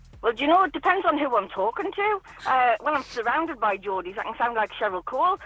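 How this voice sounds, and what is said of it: Very fast speech, Geordie accent. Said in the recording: “you still have not lost your original wonderful accent ... I think it's your speed more than your accent ... You talk really fast.”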